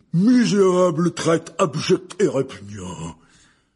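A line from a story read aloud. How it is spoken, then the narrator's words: Very loud indignant exclamation. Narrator (French): s'exclama Hagrid d'une voix si forte que la moitié des clients interrompirent leur conversation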